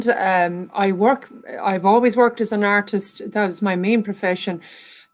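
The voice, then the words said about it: Irish accent. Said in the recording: “as you can tell from my accent, I'm from Ireland.”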